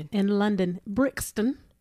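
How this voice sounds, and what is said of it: Put-on British accent. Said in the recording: “don't laugh at my British accent.”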